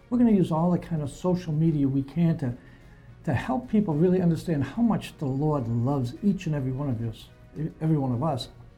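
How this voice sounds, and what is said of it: Boston accent. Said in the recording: “I'm a Bostonian, so they're going to hear my funny accent”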